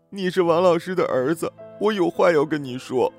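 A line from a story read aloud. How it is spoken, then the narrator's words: Crying while speaking. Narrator (Chinese): 阿英边哭边讲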